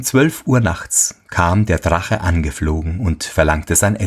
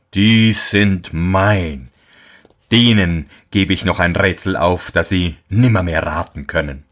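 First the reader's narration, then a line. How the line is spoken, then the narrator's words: Devil speaking mockingly. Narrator (German): sprach der Teufel höhnisch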